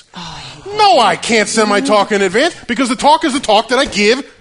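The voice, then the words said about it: Shouting, raised ranting voice. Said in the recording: “I'm screaming here. Sorry.”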